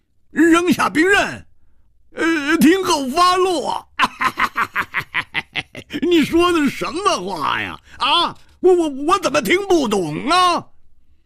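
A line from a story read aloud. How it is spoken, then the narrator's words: Loud laughter. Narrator (Chinese): 胡铁花仰天大笑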